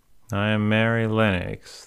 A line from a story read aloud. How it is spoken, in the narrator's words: the little girl said drawing herself up stiffly